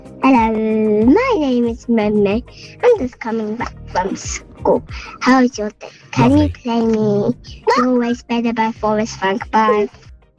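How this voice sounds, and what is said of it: Child's voice, sounds really happy. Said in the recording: “you sound really happy today. You sound like you've had a really good day.”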